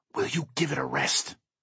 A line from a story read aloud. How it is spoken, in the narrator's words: I hiss